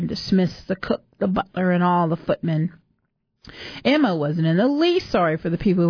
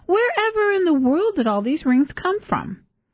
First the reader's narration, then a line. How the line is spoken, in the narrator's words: Hattie exclaimed